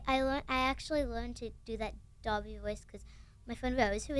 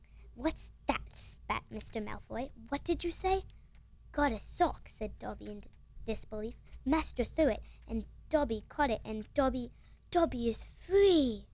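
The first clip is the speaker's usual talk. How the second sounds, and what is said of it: Good put-on British accent. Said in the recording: “you've got a pretty good British accent.”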